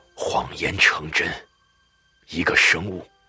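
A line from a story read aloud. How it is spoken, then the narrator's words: Low, hushed voice. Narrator (Chinese): 辛德曼压低声音回答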